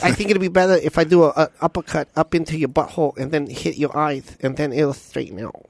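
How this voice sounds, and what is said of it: Imitates another person's voice. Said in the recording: “that was an amazing impersonation of Mike Tyson ... It was very good.”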